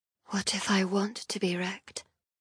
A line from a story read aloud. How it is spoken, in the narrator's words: I whisper